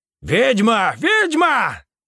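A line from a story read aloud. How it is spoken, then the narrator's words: Crowd shouting. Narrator (Russian): кричала толпа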